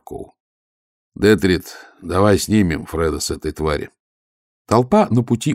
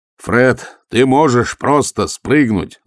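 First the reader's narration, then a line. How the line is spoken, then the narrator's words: Shouting while running. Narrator (Russian): закричал Ваймс, догоняя быка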